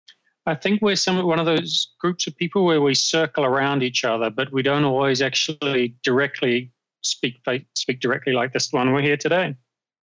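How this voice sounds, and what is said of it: New Zealand accent. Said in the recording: “accent... was from New Zealand... Not to be confused with an Australian accent... my accent's starting to shift around a little bit”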